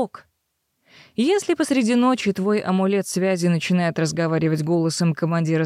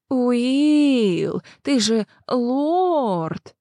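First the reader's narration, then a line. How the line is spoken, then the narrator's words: Venomous mocking drawl. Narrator (Russian): ядовито протянул Вилмар, передразнивая любимого собутыльника лорда-канцлера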